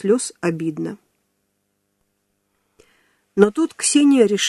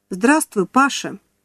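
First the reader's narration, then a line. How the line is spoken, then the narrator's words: Cheerful. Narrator (Russian): весело произнесла она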